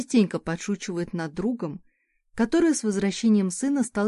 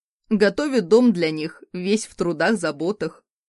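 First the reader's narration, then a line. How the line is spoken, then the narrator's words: Amused snort. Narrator (Russian): хмыкнул муж, забавляясь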